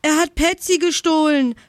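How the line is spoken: Shouted. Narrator (German): schrie Jana

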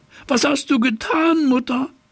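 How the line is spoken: Horrified cry. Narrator (German): rief er entsetzt

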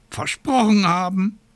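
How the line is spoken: Raven's croak. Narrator (German): krächzte der Rabe Abraxas

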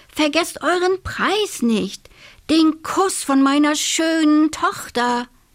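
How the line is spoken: Called out. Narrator (German): rief der König

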